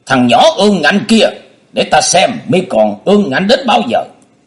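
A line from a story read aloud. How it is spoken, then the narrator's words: Furious loud voice. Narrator (Vietnamese): Trương Thiên Ý mắt nổ lửa lớn tiếng nói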